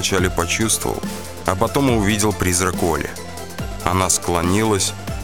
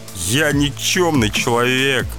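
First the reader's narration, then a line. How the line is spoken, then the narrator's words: Moaning. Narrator (Russian): простонал я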